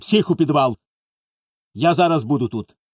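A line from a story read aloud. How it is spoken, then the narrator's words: Sharp. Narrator (Ukrainian): сказав різко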